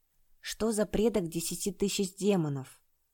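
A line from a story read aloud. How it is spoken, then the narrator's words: Whisper. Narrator (Russian): прошептал Чэнь-Цянь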